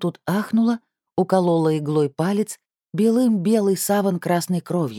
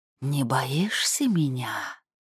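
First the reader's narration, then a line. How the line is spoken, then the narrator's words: Sudden snake hiss. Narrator (Russian): Змея прошипела вдруг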